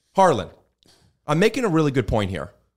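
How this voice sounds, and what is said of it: Raised, loud voice. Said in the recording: “when you raise your voice... raising our volume”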